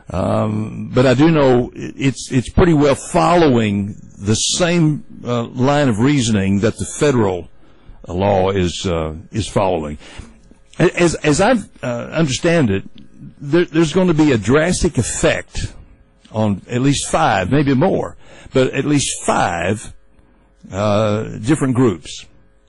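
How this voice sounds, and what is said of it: Impression of Bill Barker. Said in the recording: “my Bill Barker impersonation”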